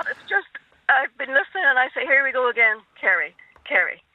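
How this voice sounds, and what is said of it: Irish Donegal accent. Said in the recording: “it was Donegal you were going to say there, from your accent”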